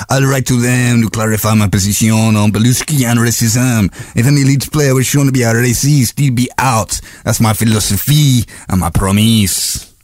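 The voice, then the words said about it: Put-on Italian accent. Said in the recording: “I love the French twang there ... That's Cellino. So that's Italian.”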